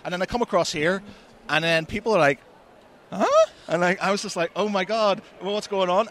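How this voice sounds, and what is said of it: Northern Irish accent. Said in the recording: “when I first came over from Northern Ireland to Manchester, I was so conscious of my accent ... everybody talks like me”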